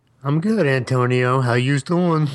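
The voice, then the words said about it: Put-on Brooklyn accent. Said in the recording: “trying to be Brooklyn. I can't stop my Brooklyn accent.”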